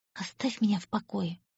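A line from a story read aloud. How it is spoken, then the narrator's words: Whisper. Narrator (Russian): прошептала она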